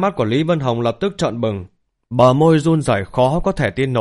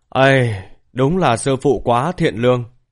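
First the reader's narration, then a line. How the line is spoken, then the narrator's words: Sighing. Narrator (Vietnamese): thở dài nói tiếp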